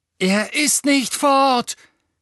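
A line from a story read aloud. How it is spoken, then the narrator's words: Shouting. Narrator (German): schrie Harry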